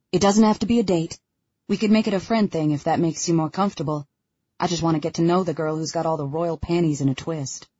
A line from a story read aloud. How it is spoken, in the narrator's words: Daniel must sense it because he quickly says